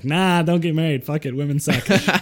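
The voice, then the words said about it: Put-on Jewish accent. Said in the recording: “you kind of said that with a Jewish accent.”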